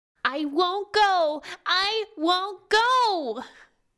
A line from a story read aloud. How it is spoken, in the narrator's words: Riona screamed